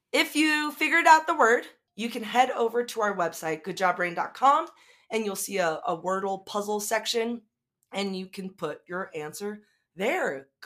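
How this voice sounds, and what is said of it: Hoarse, fading voice. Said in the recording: “my voice is starting to go away”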